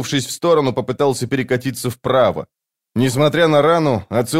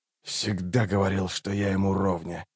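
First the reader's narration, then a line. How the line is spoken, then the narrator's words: Muttered. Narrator (Russian): пробормотал Раллик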